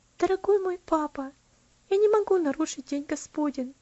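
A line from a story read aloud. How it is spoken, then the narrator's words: Quiet, gentle voice. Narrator (Russian): ответила она тихим, нежным голосом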